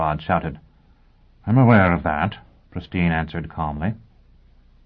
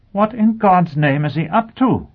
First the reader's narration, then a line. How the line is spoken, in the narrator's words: Blackrod exclaimed